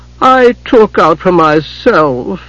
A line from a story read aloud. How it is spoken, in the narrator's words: Hidjakel whined, shrinking back from Tachysis's anger